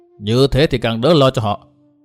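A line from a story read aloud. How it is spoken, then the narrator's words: Cold. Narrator (Vietnamese): Lão một giò lạnh lùng nói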